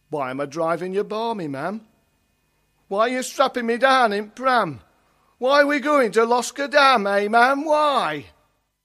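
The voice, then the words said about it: Leicestershire East Midlands dialect. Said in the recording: “coming from Leicestershire originally, that's my local dialect as well ... East Midlands”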